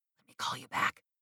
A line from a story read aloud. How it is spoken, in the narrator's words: I whispered